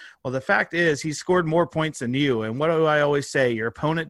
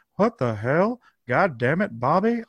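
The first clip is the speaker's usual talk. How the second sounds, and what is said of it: Hank Hill cartoon character impression. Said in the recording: “in your best Hank Hill impression, which I can do ... I can do a damn good Hank Hill impression.”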